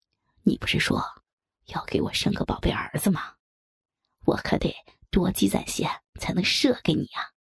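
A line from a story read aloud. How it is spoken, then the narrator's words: Playful whisper. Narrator (Chinese): 笑着凑到我的耳边轻声说道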